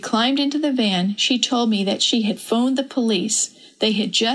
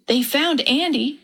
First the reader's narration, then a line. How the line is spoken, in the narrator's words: she exclaimed